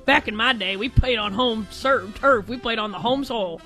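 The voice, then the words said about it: Imitates another person's voice. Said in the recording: “That was my best Drake Toll impression.”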